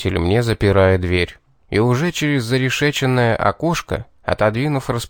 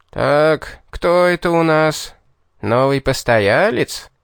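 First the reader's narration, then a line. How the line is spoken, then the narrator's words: Jailer's joyful drawl. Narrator (Russian): Радостно протянул незнакомец, являющийся, похоже, здешним тюремщиком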